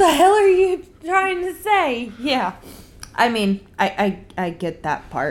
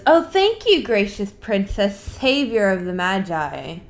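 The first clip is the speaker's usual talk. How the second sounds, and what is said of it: Sarcastic, mocking tone. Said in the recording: “being sarcastic and mean about it ... she's being mean about it”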